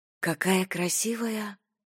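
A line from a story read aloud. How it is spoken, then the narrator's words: Whispered. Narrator (Russian): прошептала Айрис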